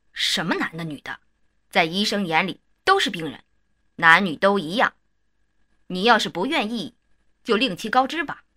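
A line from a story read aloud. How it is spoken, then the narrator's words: Sharp angry interruption. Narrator (Chinese): 院长就发火了，厉声打断了我说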